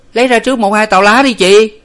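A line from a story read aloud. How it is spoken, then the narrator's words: Loud hurried call. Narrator (Vietnamese): nó to tiếng hối hả luôn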